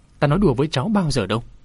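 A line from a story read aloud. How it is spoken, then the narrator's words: Smiling. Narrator (Vietnamese): Bạch Nhị tiên sinh mỉm cười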